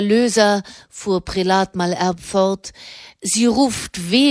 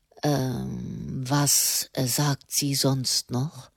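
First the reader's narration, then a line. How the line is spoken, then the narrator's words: Calm question. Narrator (German): fragte der Papst ruhig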